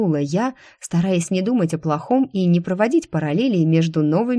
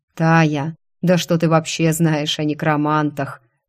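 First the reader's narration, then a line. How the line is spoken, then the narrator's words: Condescending snort. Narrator (Russian): снисходительно хмыкнул Кайр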